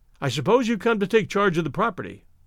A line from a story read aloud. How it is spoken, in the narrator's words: I blurted